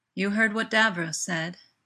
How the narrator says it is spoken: Jack says

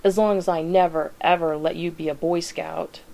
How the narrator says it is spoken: the teenager snaps

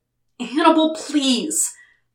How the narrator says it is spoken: he groaned in frustration

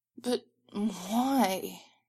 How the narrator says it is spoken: He whines

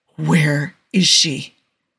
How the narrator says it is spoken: Andy growls

